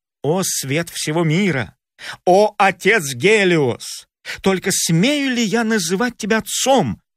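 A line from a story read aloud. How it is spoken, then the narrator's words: Exclaimed. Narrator (Russian): воскликнул Фаэтон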